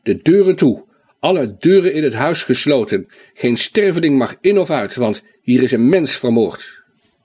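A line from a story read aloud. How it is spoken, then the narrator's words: Roaring. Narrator (Dutch): brulde hij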